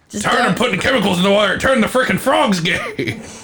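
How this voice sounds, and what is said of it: Alex Jones impression. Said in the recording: “unless I'm doing Alex Jones. I can tap into that on the fly”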